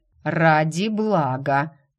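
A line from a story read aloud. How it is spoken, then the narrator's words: Menacing reminder. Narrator (Russian): грозно напомнил главный лекарь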